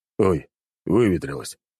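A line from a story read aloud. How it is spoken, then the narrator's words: Displeased grumbling. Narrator (Russian): недовольно пробурчал граф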